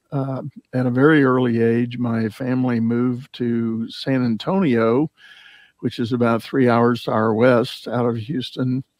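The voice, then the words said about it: Texan accent. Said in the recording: “I have a bit of my own accent. I am a native Texan.”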